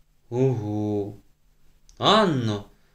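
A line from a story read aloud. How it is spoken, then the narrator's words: Stern, slow, drawn-out teacher. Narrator (Ukrainian): промовила вчителька суворим тоном, повільно й голоси цідячи слова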